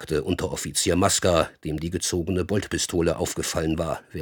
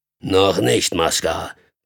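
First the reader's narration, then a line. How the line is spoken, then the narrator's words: Grunting. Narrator (German): grunzte Karnow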